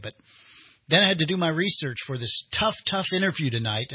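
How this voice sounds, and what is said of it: Sarcastic tone. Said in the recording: “saying that sarcastically”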